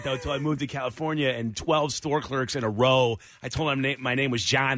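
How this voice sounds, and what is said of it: Chicago north side accent. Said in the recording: “I grew up in Chicago on the north side. That's where this accent comes from... it's a horrible accent”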